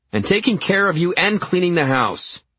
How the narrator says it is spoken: I said, my voice rising

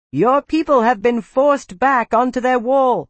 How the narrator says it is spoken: Hashat shouted

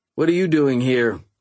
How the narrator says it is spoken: I asked

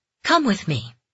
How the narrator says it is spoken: he said, his tone crisp

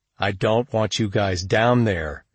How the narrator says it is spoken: he growled

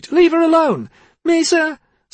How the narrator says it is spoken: Sati cried

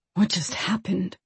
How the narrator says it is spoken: Blaine breathed

